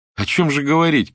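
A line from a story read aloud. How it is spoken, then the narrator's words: Shout. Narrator (Russian): крикнул кто-то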